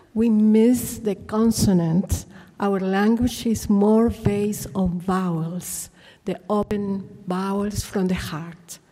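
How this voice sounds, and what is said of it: South American Spanish accent. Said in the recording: “you can feel my accent. It's the Spanish accent from South America.”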